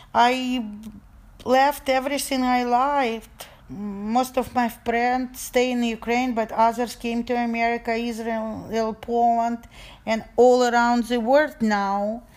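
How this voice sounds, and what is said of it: Non-native English accent. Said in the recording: “people was very rude about my accent or hearing me speak Russian.”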